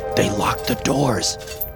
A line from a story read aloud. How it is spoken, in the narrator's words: I said in a harsh whisper